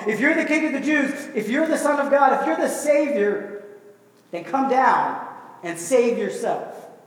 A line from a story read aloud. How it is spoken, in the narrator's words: they're shouting at him on the cross